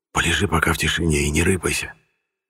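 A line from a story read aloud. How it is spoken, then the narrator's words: Whisper in ear. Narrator (Russian): прошептал я ему на ухо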